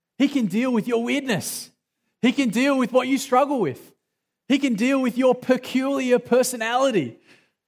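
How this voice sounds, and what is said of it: Australian accent. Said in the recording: “my weird accent. ... in heaven they speak Australian”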